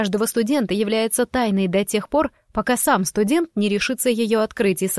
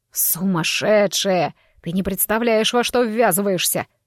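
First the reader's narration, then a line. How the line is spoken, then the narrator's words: Groaning. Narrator (Russian): простонал ректор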